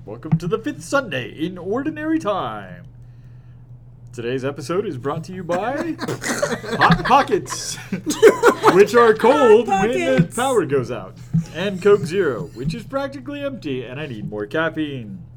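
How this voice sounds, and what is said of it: Announcer-style radio voice. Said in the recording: “I'm using my radio voice as if I'm on the radio.”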